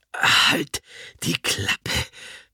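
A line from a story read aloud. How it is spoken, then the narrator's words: Grandmother gasping. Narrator (German): keucht Oma von Stibitz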